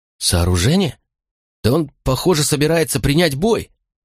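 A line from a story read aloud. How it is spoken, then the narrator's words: Astonished exclamation. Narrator (Russian): воскликнул Тулий, изумленно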